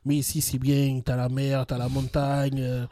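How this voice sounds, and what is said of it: Clumsy imitated southern French accent. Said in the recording (French): “pris l'accent ... je vais essayer d'imiter un accent, mais vu que je ne maîtrise aucun accent au monde, donc ça va être un petit peu dégueulasse”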